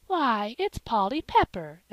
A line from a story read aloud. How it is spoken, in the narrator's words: exclaimed Mrs